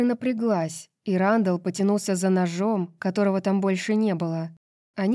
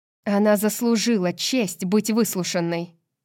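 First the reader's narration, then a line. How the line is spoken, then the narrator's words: Snapping retort. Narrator (Russian): огрызнулась Неста в ответ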